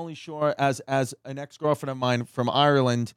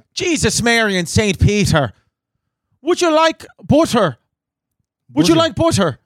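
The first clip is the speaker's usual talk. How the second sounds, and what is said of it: Put-on Irish accent. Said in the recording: “her Irish mother would always say ... Say other sentences with that accent.”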